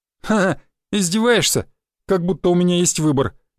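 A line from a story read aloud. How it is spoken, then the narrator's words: Sincere laughter. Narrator (Russian): искренне рассмеялся Федька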